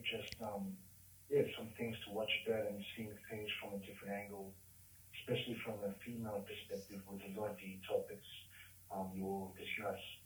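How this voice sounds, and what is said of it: Australian accent. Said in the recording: “I fucking love the Australian accent so much. I am hearing New Zealand. ... very oh, Australian”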